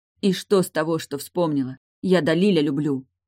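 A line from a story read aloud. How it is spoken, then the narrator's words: Desperate shout. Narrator (Russian): выкрикнула отчаянно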